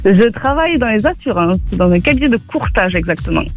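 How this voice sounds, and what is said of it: Sing-song southern French accent. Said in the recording (French): “il fait plaisir votre accent, vous êtes de Nîmes forcément, et ça s'entend et c'est chantant.”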